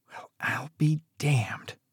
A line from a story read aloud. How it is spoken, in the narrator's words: she whispered, her voice barely audible over the sound of Jasper's approaching boots